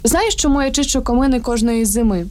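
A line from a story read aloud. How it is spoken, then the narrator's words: Plain. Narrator (Ukrainian): запитав він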